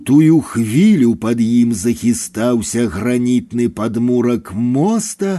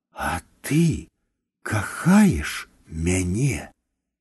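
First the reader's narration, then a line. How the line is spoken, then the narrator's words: Whispered. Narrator (Belarusian): Адам прашаптаў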